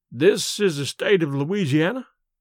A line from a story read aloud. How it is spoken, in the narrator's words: uttered the tramp, quaveringly